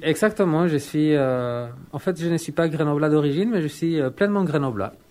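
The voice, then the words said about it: Slight Chilean accent in French. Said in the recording (French): “Il y a un petit accent, tu viens d'où? ... je viens du Chili, je suis chilien aussi”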